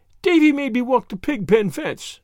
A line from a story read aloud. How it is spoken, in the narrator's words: wailed Dora